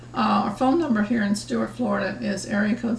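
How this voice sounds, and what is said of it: Raspy, hoarse voice. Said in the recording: “I do sound a little bit raspy. I don't have a cold or anything like that, but I guess it's just affecting my speech a little bit, just the raspiness, you know, because I don't usually sound like I have a frog in my throat.”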